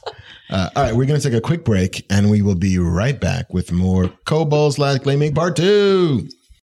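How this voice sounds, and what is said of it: Cheesy announcer voice. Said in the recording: “my like shitty announcer voice”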